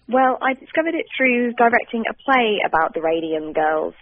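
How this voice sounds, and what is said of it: British accent. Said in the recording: “You can probably hear from my accent that I'm British”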